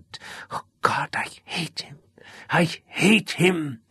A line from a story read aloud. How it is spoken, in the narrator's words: she whispered through the pain